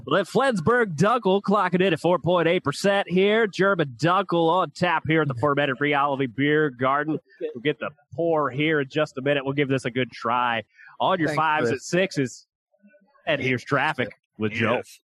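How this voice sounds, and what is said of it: Announcer-style radio voice. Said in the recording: “Radio voice”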